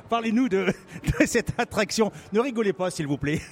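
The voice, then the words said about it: Put-on English accent in French. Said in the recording (French): “je vais essayer d'avoir l'accent anglais ... Votre accent est excellent”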